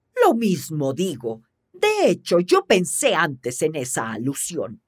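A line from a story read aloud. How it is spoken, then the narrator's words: Grumbling. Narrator (Spanish): gruñó Borgón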